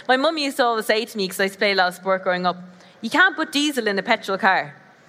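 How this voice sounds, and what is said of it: Deep southern Irish accent. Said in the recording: “I'm from Ireland, if you didn't guess by the accent. South of Ireland, so it's a bit deeper.”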